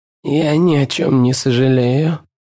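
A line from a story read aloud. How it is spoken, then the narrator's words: Hoarse. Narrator (Russian): хрипит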